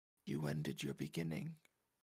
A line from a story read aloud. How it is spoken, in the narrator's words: Angel said softly